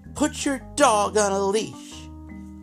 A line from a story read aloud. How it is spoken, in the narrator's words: Entitled mother then looks at me and shouts